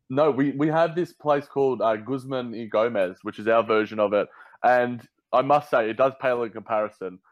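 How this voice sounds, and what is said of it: Australian accent. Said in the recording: “can understand my accent, in Australia”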